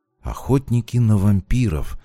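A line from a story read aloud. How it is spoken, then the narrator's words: Thoughtful mutter. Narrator (Russian): задумчиво пробормотал я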